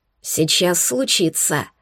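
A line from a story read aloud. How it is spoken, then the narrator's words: Impressed werewolf whisper. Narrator (Russian): впечатленно прошептал оборотень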